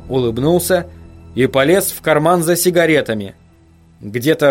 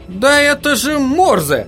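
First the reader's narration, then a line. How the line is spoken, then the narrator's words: Sudden exclamation. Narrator (Russian): неожиданно воскликнул Джерри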